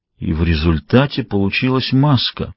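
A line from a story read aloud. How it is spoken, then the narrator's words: Muttered. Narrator (Russian): пробормотал Кусанаги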